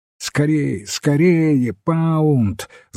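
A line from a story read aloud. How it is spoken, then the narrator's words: Breathless shouting. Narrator (Russian): запыхавшись, кричал он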